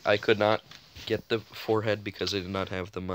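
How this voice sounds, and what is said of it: Usual voice. Nothing is said of it.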